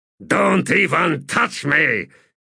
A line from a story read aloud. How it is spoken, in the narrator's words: he growled